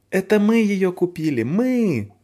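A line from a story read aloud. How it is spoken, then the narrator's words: Joyful, excited. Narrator (Russian): запрыгала радостно Фаль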